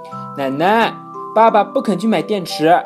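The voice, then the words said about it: Loud shouting child's voice. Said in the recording (Chinese): “呱呱一听，大声嚷”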